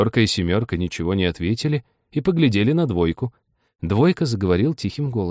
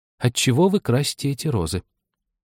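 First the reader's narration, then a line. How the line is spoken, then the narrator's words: Timid question. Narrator (Russian): робко спросила Аня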